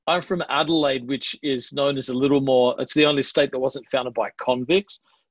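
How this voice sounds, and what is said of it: Australian accent, slightly British-sounding. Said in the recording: “I'm actually from the part of Australia that doesn't sound typically Australian ... it's got a distinct accent that sounds slightly British ... Sometimes people say you sound slightly British”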